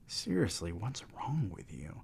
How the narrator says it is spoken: Adam whispered to Ethan

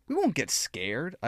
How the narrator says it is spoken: I whined

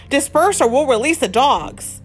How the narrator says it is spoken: the police shouted

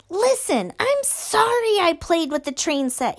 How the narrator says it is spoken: yelled as loudly as he could

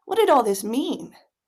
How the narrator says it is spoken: Cameron sighed

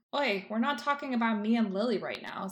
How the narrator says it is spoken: says James

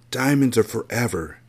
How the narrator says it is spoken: she whispered as she wiped away her tears

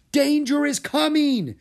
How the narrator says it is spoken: he yelled

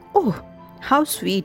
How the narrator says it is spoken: she exclaimed

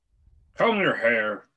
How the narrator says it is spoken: he barked by way of a morning greeting

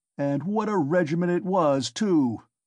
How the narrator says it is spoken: cried Ilya Petrovitch, much gratified at this agreeable banter, though still sulky

